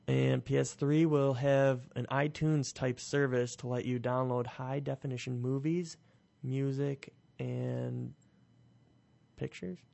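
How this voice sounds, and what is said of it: Slightly raspy, hoarse voice. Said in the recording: “I think I'm losing my voice. ... It's a little bit raspy. ... A little rough around the edges.”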